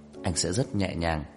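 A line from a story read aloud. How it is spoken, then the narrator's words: Hoarse pleading voice. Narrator (Vietnamese): Trang Hạo Nhiên giọng khàn khàn như khẩn cầu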